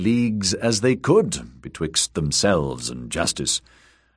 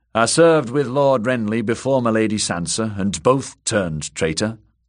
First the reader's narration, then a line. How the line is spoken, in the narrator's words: the woman Brella complained bitterly